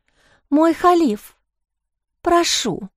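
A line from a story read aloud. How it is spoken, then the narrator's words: Hoarse whisper, cut off. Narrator (Russian): хрипло прошептала, но закончить фразу не успела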